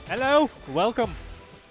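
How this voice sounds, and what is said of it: Put-on British accent. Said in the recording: “Was that a British accent? ... Yeah, I don't know what I'm doing.”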